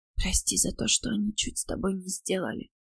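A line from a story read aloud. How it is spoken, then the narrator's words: Whispered. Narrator (Russian): прошептала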